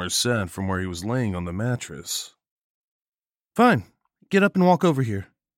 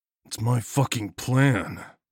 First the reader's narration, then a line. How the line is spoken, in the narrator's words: I growled